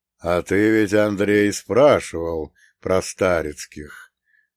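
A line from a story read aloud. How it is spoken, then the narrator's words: Thoughtful drawl. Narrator (Russian): задумчиво протянул Прокоп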